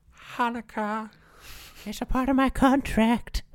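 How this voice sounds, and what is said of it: Imitates another person's voice. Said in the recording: “my Adam Sandler impression, but it's not very good”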